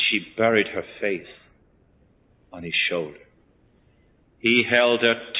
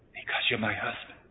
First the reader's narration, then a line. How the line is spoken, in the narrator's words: She just whispered